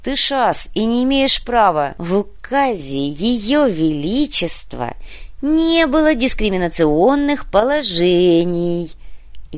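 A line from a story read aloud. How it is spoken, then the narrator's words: Unctuous, syrupy voice. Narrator (Russian): Елейным голосом напомнил Урбек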